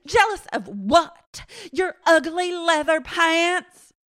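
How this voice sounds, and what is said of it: Impression of Crystal. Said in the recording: “That's a good impression of her.”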